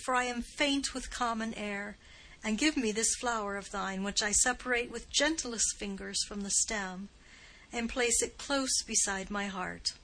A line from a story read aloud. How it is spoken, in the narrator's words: exclaimed Beatrice